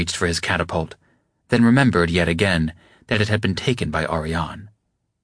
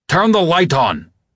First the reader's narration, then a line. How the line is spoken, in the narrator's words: he shouted